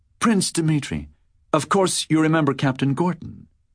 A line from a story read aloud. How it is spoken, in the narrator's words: she was saying in her sweet, cordial voice